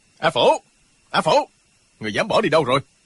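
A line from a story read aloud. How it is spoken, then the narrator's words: Sharp scolding from outside. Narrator (Vietnamese): có tiếng gắt của Lộc Trường Khách ở bên ngoài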